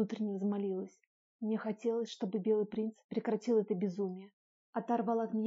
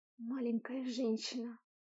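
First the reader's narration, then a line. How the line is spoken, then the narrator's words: Whisper in ear. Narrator (Russian): прошептал на ухо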